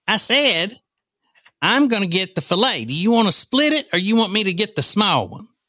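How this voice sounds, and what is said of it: Spot-on imitation of his wife. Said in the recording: “You can't miss. You do it spot on, too. That is, if I close my eyes, she is here with us.”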